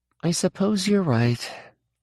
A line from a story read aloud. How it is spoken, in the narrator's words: Jesse said with a small sigh